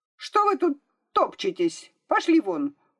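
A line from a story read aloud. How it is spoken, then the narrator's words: Sharp scolding. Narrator (Russian): прикрикнула она на девочек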